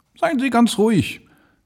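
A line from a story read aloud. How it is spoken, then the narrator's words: Calling out. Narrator (German): rief er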